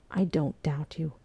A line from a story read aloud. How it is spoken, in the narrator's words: Fraser said quietly